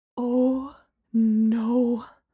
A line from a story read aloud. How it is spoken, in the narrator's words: Gemma breathed